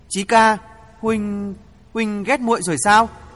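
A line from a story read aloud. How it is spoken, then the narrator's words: Trembling voice. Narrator (Vietnamese): Phương Huệ run run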